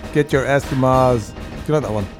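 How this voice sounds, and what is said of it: Arnold Schwarzenegger impression. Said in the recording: “doing an impersonation of Arnold Schwarzenegger ... I think you did really well”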